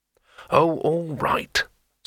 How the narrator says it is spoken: said Rincewind irritably

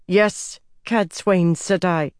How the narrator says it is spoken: she said through clenched teeth

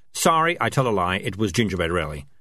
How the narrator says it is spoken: said Morris quickly

